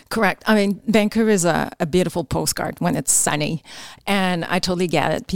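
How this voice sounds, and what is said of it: Quebec French accent in English. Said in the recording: “that accent means you're from Quebec”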